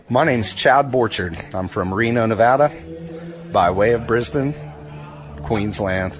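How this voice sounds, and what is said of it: Speaks with a noticeable accent. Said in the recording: “what a great accent.”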